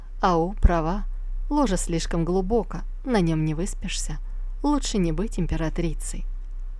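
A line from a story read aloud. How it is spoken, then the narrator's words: Aunt, sighing. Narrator (Russian): Тетя со вздохом сказала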